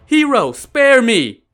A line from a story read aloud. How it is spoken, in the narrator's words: the woman screamed as she struggled in vain to free herself